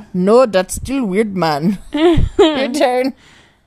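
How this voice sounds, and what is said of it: Put-on Jamaican accent. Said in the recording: “Say it in a Jamaican accent ... you're really good at Jamaican accents”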